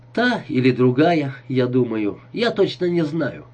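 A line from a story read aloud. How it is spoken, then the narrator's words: Cheerful. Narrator (Russian): весело произнес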